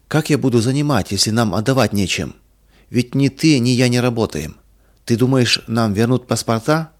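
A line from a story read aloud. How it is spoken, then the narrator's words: Calm question. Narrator (Russian): спокойно спросил Иван Михайлович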